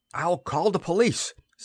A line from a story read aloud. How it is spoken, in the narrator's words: Simon shouted